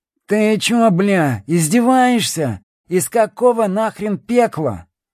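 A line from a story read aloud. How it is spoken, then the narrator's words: Hoarse wheeze. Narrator (Russian): просипел Гвоздь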